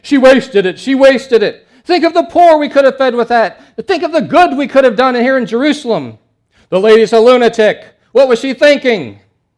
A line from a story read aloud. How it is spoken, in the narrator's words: screaming and bantering